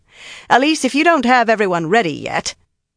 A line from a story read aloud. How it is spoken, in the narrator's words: she said loudly